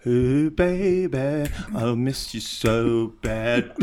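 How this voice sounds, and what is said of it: Sings in put-on British accent. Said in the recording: “I do it with a British accent because it seems better ... German or British at the same time. Definitely not Norwegian.”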